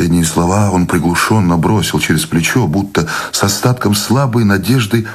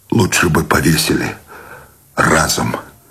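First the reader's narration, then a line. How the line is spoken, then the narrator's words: Desperate exhale. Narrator (Russian): С отчаянием выдохнул Сущеня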